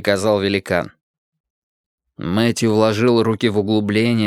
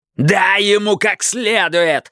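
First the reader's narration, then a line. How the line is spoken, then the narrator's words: Yelled. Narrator (Russian): заорал Хейзлтон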